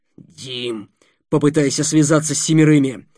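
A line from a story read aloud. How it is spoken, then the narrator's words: Hoarse rasp. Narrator (Russian): прохрипел Никита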